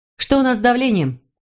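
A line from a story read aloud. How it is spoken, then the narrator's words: Woman shouting. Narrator (Russian): крикнула она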